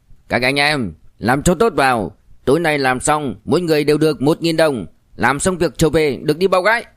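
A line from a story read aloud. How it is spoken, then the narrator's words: Loud. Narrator (Vietnamese): tên này lớn tiếng nói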